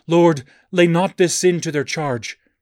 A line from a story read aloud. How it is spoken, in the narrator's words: crushed to earth, he cried with a loud voice